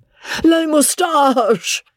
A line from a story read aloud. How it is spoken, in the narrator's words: gasped Joe